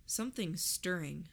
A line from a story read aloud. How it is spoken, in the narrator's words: I murmured